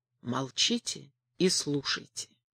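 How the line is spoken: Barely audible breathy whisper. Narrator (Russian): Изя едва слышно, одним только дыханием прошептал

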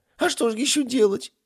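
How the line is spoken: Sobbing. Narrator (Russian): всхлипнул Кебаб

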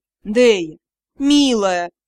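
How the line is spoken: Moaning. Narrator (Russian): простонал Элохар

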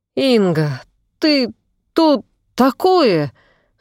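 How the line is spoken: Breathless exhale. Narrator (Russian): выдохнул Белов

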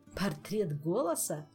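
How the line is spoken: Laughing. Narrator (Russian): засмеялся Кантор

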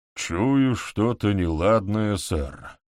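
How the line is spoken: Gloomy remark. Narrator (Russian): мрачно прокомментировал сержант

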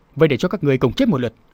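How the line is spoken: Loud shout. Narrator (Vietnamese): Đường Bảo Thạch lúc này hét lớn

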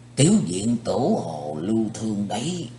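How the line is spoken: Softly spoken. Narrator (Vietnamese): Một thực khách cạnh bên Chí Tôn nói khẽ

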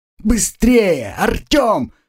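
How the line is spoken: Frantic shout. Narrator (Russian): закричала Агнесса

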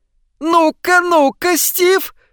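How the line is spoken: Shouting. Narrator (Russian): закричал Чарли Франсуорт

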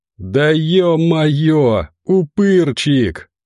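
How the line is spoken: Joyful yell. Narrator (Russian): радостно в ответ заорал Костя

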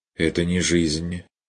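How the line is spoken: Dry objection. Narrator (Russian): возразил он сухо

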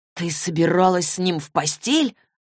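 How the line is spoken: Shocked, breathless. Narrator (Russian): выдохнул потрясенный до глубины души Саймон

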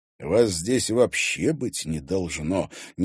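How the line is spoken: Displeased grumble. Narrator (Russian): недовольно пробурчал Мезенцев

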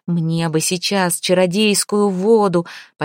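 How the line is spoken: Almost moaning. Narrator (Russian): почти стонал Свинельд

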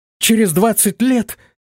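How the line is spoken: Astonished exclamation. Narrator (Russian): воскликнула пораженная девушка

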